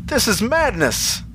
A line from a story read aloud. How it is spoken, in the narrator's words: exclaimed Mavis